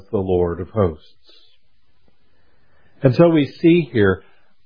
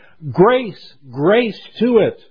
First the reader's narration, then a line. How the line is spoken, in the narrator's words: they shout